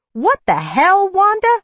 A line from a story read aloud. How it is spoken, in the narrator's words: she screeched at me